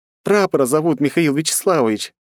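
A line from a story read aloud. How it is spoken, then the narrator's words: Shared after much laughing. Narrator (Russian): насмеявшись доль, поделилась она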